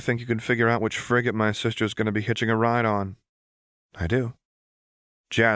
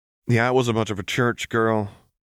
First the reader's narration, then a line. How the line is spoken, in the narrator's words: Vi said dryly